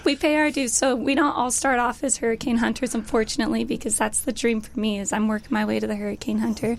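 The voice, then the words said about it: Hoarse, worn-out voice. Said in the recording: “I've just talked so much, I've lost my voice.”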